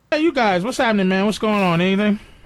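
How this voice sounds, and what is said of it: Guido cool-guy accent. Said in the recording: “listen to his Guido fucking cool guy accent, which is my favorite. sounds like he's wearing 12 leather jackets.”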